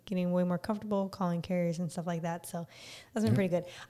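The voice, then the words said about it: Slightly raspy voice. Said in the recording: “my voice has been more raspy these last couple weeks ... my voice is raspy ... It does sound a little raspy.”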